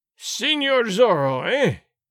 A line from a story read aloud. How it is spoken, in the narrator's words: Gonzalez cried in a terrible voice